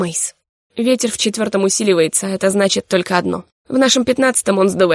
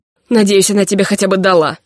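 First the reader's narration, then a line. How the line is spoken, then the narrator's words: Through gritted teeth. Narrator (Russian): процедил я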